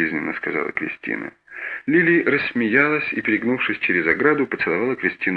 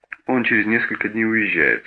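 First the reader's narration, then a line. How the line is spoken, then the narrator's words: Plain. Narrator (Russian): сказала Кристина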